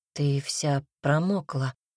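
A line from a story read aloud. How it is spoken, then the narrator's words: Hoarse. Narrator (Russian): хрипло говорит он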